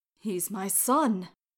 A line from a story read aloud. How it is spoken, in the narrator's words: the man repeated